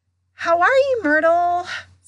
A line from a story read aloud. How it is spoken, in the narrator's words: said Hermione in a falsely bright voice